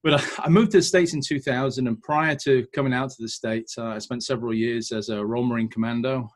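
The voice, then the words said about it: Non-American accent, not Texan. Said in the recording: “by the accent, you can tell, obviously, I'm not a local ... my accent isn't quite the Texas twang you're all used to hearing”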